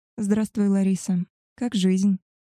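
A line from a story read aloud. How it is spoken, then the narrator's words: Soft inquiry. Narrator (Russian): мягко поинтересовалась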